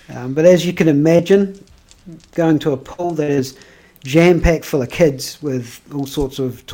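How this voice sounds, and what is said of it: Usual voice. Nothing is said of it.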